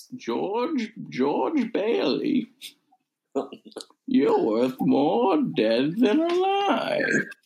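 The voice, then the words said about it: Sinister villain voice. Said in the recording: “That's evil. That is an evil voice.”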